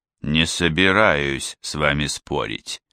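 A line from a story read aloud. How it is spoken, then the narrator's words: Soft, gentle. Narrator (Russian): мягко сказал Гало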